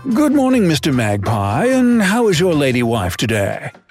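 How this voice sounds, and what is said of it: Bad put-on British accent. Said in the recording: “The bad British accent”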